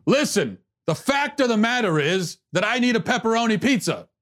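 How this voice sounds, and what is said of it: Screaming impression of another person. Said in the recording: “Everything they say, they're screaming. I'm not sure I've ever heard either one of them say anything in a normal inside voice ... Why are you screaming?”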